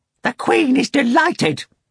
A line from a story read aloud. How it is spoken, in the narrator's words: shouted Korovyov